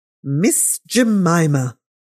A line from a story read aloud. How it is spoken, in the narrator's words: exclaimed Miss Pinkerton in the largest capitals